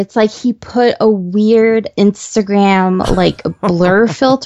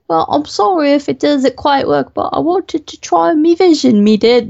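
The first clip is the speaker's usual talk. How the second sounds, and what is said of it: Exaggerated, mocking put-on accent. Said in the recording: “that's a really offensive accent”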